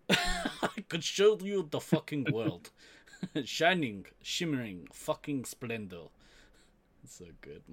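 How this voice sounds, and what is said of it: Poor imitation of another person's accent. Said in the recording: “My accent is terrible ... your accent is terrible, and you should never try to do the Michak accent again. It's just not good ... a fucking terrible knockoff Michak”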